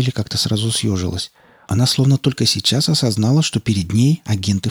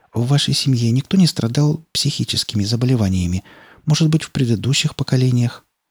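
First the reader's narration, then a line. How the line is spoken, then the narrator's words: Insinuating, ingratiating. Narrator (Russian): вкрадчиво произнесла Скалли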